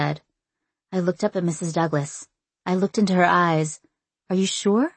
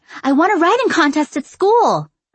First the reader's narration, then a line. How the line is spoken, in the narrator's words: I exclaimed